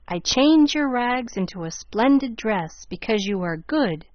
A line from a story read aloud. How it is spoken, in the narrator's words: said the grandmother in her stage tones